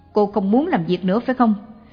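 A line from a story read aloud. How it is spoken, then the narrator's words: Barking angrily. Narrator (Vietnamese): Người này quát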